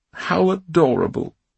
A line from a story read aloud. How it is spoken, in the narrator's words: she exclaimed